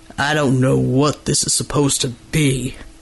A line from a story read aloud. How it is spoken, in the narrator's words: he rumbled